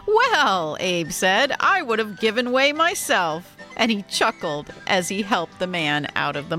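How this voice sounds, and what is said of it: Usual voice. Nothing is said of it.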